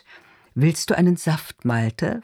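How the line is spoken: Soft voice, controlled anger. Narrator (German): fragt mit sanfter Stimme, in der auf einmal ein leiser, kontrollierter Zorn zu brodeln scheint

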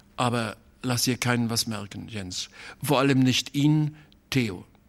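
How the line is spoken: Hesitant voice. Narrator (German): sagte er noch mit zögernder Stimme

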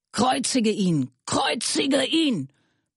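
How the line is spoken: Crowd shouting. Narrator (German): die Hohepriester und die Diener ... schrien sie

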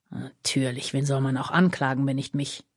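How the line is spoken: Muttering with a snort. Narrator (German): murmelte er schnaubend

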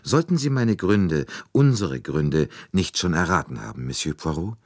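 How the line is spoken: Calm addition. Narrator (German): Helena setzte ruhig hinzu

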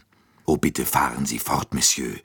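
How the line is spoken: Plain. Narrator (German): sagte Dr

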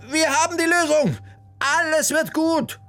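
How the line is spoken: Calling out. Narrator (German): rief sie den beiden entgegen

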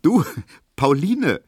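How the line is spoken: Laughing call. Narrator (German): rief Emil Kubinke lachend

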